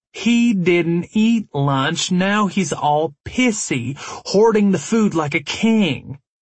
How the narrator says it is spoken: Dallas drawled

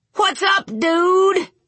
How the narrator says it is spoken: yelled the fat man

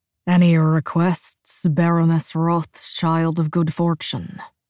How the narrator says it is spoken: he drawls

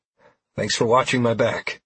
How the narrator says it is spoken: I said to Trell as the three of us stood there panting

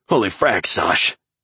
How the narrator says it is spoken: said Pack, panting

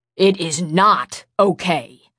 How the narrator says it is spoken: Matt growled

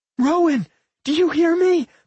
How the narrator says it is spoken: Millie screamed, tears streaming down her face

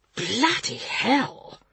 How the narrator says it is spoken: hissed Gavin under his breath

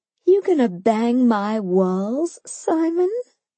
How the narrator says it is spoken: I laughed

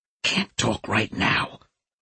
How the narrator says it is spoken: Lombardo whispered

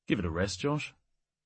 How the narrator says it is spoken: said tiredly

